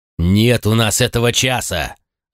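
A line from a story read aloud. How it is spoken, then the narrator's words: Irritated bark. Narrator (Russian): раздраженно рявкнул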